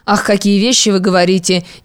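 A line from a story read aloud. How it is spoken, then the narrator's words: Hesitant mumble. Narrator (Russian): нерешительно пробормотала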